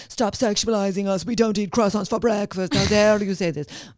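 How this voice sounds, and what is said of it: Put-on Italian accent. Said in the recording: “That was an Italian accent.”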